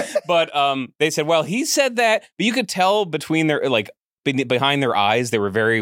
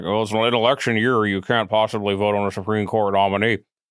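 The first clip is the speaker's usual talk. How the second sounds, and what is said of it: Imitates another person's voice. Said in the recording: “that was actually a good impression.”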